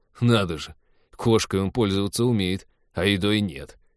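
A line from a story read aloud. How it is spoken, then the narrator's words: Snorting. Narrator (Russian): хмыкнул Тед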